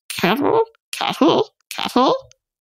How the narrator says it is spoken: it quawked and muttered

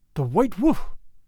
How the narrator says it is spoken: exclaimed my father

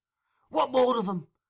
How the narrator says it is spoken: cried Fagin

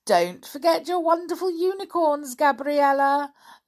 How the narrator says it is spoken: laughed Nana Prue

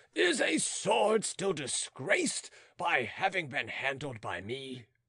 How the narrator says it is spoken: taunted Beausire triumphantly

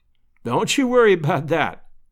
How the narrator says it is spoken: laughed Lovell

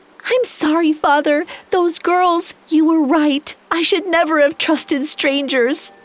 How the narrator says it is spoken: shaking and sobbing, she gasped out

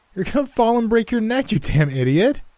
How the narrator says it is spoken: my wife called out, still laughing, with tears streaming from her eyes

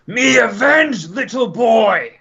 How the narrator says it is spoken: Ukma yells

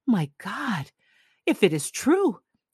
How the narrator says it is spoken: he exclaimed

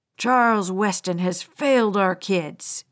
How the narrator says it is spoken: spat out

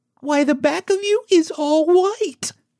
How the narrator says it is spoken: cried the girl

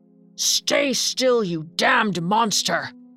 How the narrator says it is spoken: The devil growled at him, saying

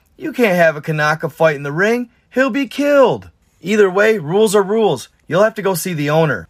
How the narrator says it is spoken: The door attendant laughs out loud and says

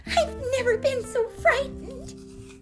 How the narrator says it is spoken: sobbed Annie

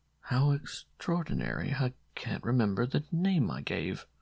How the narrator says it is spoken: Rivenot stopped suddenly, murmuring

